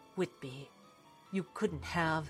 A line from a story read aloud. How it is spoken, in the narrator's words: he muttered to himself